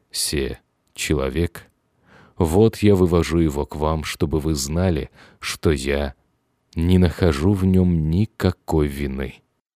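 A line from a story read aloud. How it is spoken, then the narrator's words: Grave and solemn. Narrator (Russian): он важно и торжественно произнес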